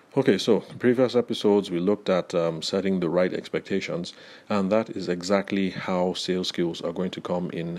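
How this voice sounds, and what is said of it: Congested voice with a cold. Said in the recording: “I have a cold again”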